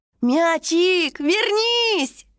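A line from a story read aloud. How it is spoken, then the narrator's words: Young dragon girl shouting. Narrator (Russian): кричала пурпурная дракоша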